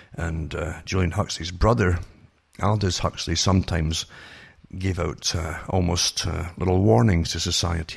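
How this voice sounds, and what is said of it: Hoarse, failing voice. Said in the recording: “my voice is going again because of all the smoke on Friday from the forest fires”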